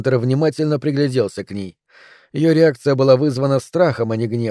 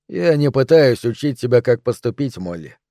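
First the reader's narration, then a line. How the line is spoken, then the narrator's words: Even, steady voice. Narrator (Russian): ровным голосом сказал Хантер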